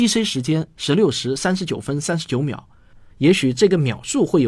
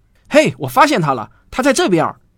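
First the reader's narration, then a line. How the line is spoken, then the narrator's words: Calling out. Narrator (Chinese): 罗威尔 冲两个同伴喊道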